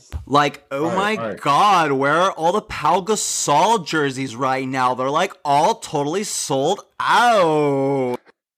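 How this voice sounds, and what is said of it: Exaggerated Valley girl voice. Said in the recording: “do your best Valley person impression”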